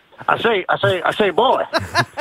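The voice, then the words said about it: Foghorn Leghorn impression. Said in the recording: “Foghorn Leghorn. ... Can you do an impression for us?”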